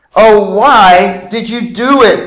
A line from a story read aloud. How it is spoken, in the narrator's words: They groaned